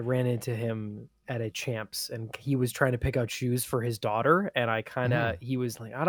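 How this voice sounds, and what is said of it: Usual voice. Nothing is said of it.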